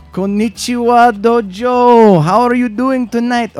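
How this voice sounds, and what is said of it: Put-on Japanese accent. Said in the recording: “Me doing a uh, ... Japanese. I don't even know what accent that was. ... Japanese impression”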